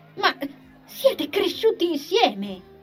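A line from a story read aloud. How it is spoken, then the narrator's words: Uncontrollable exclamation. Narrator (Italian): esclamò, incapace di trattenersi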